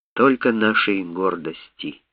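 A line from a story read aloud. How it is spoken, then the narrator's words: Quiet. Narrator (Russian): тихо сказал он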